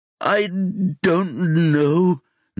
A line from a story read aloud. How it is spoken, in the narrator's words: Nestor sobs